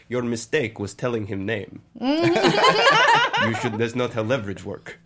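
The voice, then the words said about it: Put-on foreign accent, broken English. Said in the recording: “do the rest of the episode in that accent”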